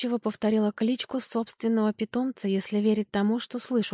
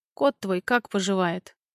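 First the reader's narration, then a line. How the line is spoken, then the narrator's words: Bored tone. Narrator (Russian): выдал он скучающим тоном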